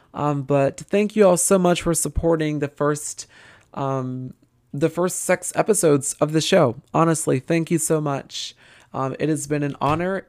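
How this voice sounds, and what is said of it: Tired, raspy voice. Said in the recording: “my voice is very tired. It's very raspy.”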